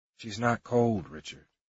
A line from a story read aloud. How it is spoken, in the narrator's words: she whispered